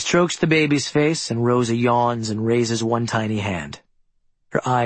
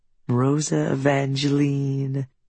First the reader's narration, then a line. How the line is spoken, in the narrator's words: Claire coos to the baby